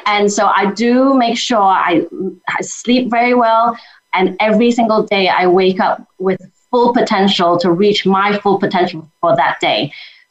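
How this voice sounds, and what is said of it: Speaks with a noticeable accent. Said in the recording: “I love your accent too, dude.”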